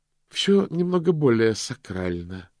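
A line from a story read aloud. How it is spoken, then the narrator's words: Gloomy reply. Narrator (Russian): мрачно ответила она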